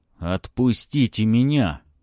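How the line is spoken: Growling. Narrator (Russian): прорычал Палыч

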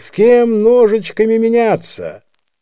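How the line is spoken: Shouting. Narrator (Russian): Обыкновенно кто-нибудь кричал

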